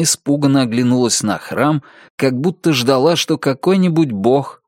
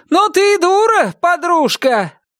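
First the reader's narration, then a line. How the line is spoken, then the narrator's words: Shouted reply. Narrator (Russian): прокричала она в ответ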